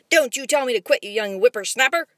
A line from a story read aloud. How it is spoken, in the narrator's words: his father commanded fiercely